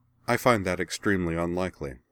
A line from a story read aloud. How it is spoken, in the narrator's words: Azana replied